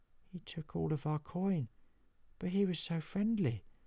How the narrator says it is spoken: muttered Nobby

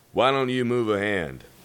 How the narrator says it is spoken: asked Cheyenne

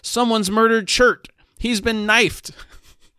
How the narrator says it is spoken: He shouted

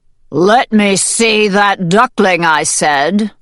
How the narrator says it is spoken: thundered the rooster, his neck feathers standing on end

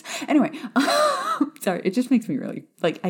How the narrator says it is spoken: I giggle

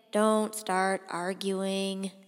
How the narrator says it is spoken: said Aaron wearily

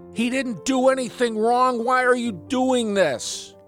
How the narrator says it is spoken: yelled out

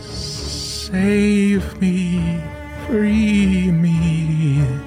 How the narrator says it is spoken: the dragon, in a loud yet soft voice

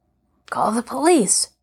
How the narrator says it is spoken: they began to murmur

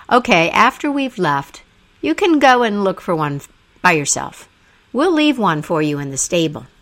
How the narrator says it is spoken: All of the other men in the room laughed and said

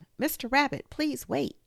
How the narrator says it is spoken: She called out

